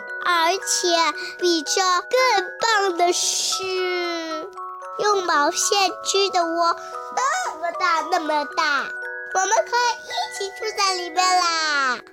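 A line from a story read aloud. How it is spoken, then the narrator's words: Happy excited cry. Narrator (Chinese): 多多一下子高兴起来，叫道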